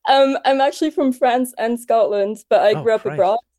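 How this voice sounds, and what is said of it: Vaguely international accent. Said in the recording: “so that explains my accent ... it's vaguely international ... It's kind of James Bond villain.”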